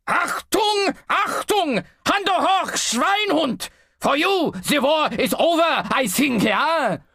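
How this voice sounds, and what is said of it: Shouted comedy German accent. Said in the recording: “shouting in a comedy German accent”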